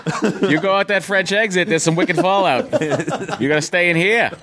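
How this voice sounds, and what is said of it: Put-on Boston accent. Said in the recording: “Boston. ... Boys get an accent. ... yeah, wicked good. ... talk like that. ... I talk like that.”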